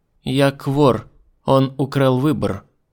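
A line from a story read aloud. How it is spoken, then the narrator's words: Even-voiced objection. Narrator (Russian): Ровным голосом возразила она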